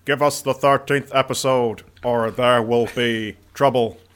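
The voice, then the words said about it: RoboCop robotic character voice. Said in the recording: “He's doing a RoboCop impression.”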